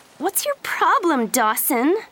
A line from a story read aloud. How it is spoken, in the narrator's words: She asked angrily